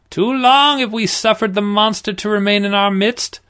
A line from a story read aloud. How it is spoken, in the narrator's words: the priest cried